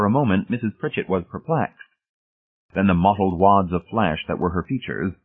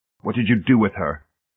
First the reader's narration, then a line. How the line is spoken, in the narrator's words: Hamilton demanded hoarsely